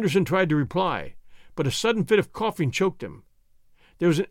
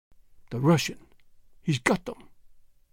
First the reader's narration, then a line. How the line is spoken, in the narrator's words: he whispered